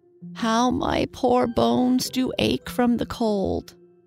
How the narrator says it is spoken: groaned the old woman

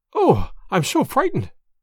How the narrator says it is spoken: I panted

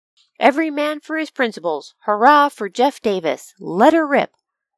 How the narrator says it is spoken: He would suddenly shout

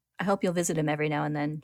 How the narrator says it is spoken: she says

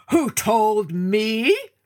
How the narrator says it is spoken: roared the lion

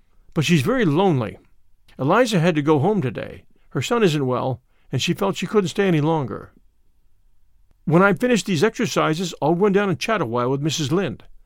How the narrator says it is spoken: said Anne

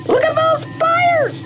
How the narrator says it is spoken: the alien to scream

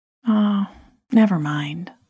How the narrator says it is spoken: I said

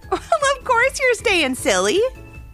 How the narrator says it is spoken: giggled Barbie

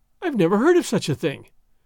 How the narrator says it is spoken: Doña Catalina gasped, her sense of the fitness of things outraged

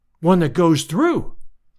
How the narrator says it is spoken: I cried

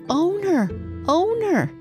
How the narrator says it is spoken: called out

